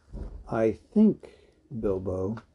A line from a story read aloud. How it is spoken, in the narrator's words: he said quietly